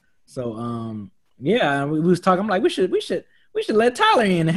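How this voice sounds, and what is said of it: Usual voice. Nothing is said of it.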